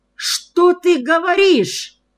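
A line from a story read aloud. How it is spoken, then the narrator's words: Frantic yell. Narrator (Russian): заорал я вне себя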